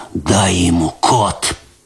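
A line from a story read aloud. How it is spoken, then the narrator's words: Hoarse rasp. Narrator (Russian): прохрипел он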